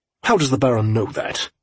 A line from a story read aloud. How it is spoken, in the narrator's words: Franklin asked sharply